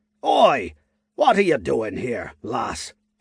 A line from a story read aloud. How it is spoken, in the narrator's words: he asked in a gruff tone